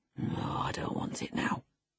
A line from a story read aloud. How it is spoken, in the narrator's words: muttered hastily